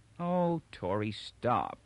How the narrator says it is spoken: she said wearily

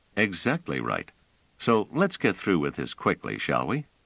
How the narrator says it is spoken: Trevise said coolly

